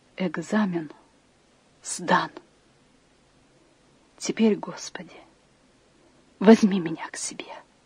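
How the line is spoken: Quiet whisper. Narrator (Russian): Потом она тихо прошептала

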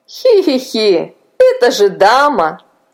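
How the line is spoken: Giggling. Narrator (Russian): засмеялся Илья

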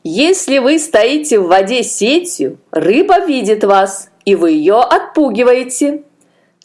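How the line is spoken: Laughing. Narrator (Russian): Засмеялся Аканби

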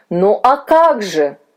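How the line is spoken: Male exclamation. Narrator (Russian): воскликнул господин Вильс

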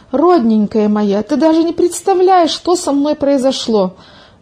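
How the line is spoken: Exclaimed. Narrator (Russian): воскликнула Милка

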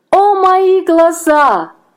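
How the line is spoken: Scream. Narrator (Russian): закричала она

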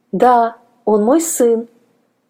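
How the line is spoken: Plain. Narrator (Russian): ответила женщина

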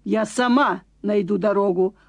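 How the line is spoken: Stern announcement. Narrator (Russian): объявила она строго

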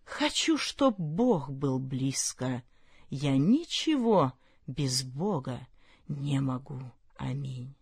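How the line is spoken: Whispered. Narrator (Russian): прошептал

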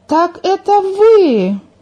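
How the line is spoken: Sudden astonished exclamation. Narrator (Russian): Владимир вдруг изумленно воскликнул

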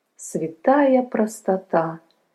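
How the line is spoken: Sighing. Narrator (Russian): вздохнул священник

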